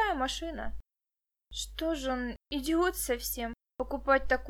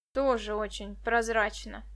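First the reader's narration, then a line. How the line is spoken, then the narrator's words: Skeptical grunt. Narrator (Russian): хмыкнул Денис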